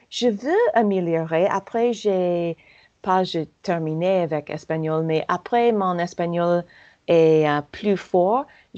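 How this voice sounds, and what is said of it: American accent speaking French. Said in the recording (French): “mon accent euh, américain”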